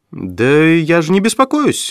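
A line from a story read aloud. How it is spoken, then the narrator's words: Agitated. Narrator (Russian): взволнованно ответила Флорес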